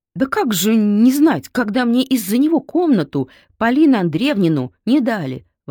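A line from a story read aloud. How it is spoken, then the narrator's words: Exclaiming. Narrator (Russian): воскликнула Тайка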